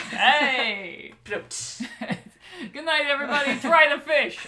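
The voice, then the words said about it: Old-time Catskills comedian voice. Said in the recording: “I'm in a very Catskills mindset right now ... the guy with the cigar and the bowler hat ... You're the Groucho Marx ... I emulated him.”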